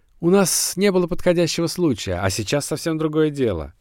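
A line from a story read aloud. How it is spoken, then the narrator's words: Shouting after someone. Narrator (Russian): вдогонку кричал он поверенному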